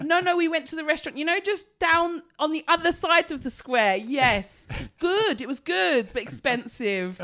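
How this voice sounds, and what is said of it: Slow, loud put-on foreigner-talk voice. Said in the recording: “I've become conscious of my foreign accent ... when I speak to foreign people, I talk. I like this ... working on my foreign accent ... You're slower and louder”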